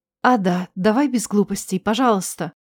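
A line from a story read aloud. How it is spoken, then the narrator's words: Quiet, desperate plea. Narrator (Russian): попросила тихо и отчаянно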